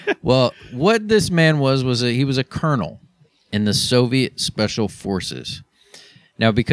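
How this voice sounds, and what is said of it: Usual voice. Nothing is said of it.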